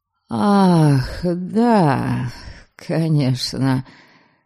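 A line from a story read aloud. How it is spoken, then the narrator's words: Uncertain. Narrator (Russian): неуверенно проговорил он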